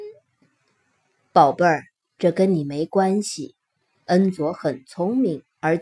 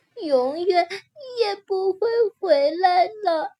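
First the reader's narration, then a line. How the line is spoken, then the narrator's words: Crying. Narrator (Chinese): 卓意哭着说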